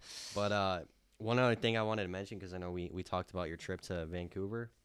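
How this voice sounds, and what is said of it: Slightly nasal voice. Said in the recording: “my voice sounds a little nasally”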